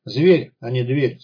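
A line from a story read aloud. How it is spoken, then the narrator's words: Rueful sigh. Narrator (Russian): сокрушенно вздохнул он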